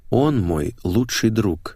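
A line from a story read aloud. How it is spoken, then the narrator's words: Slow reply. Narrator (Russian): медленно ответил я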